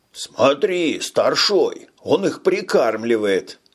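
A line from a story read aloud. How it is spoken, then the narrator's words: Exclaiming. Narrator (Russian): воскликнул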